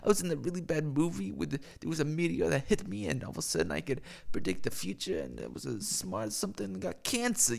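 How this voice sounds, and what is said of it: Poor impression of another person's voice. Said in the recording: “That was a shitty impression”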